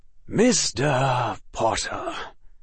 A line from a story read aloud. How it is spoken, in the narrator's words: he said solemnly with only a slight grin